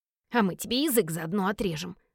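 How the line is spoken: Hissing. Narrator (Russian): прошипел Вилли

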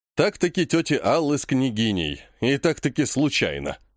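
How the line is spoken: Skeptical snort. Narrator (Russian): хмыкнул он

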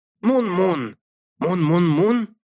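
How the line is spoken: Hoarse, cynical. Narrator (Russian): губы Эрума скривились в циничной усмешке, и он хрипло произнес

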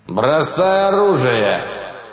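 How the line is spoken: Growled. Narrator (Russian): рыкнул он

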